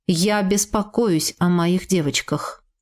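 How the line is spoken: Plain. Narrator (Russian): сказал он

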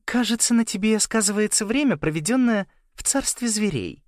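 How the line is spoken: Even voice. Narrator (Russian): ровным голосом сказала она

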